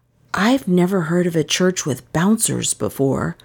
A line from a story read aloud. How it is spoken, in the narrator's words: I whispered to Dizvin